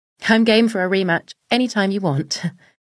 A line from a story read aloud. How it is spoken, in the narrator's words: replied with a quick laugh